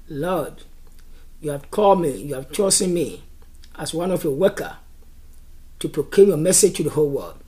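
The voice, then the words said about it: Strong accent. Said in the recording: “I have a big accent”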